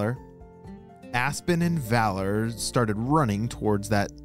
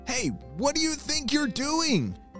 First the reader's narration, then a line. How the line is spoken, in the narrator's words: shouted Aspen